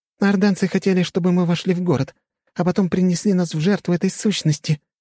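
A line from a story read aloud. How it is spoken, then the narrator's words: Timid babbling. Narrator (Russian): пролепетала Алисия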